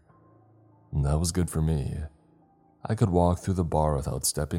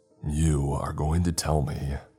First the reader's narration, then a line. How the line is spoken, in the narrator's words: I growled